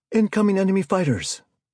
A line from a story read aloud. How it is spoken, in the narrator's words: Al-Jahar shouted